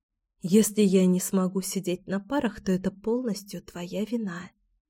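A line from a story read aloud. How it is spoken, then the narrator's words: Whispering. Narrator (Russian): зашептала Алексия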